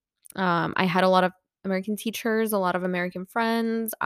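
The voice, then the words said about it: American-sounding accent. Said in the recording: “I may sound American. I know that. ... I picked up on an American accent”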